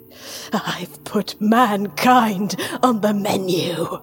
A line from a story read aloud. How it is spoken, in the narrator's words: he rasped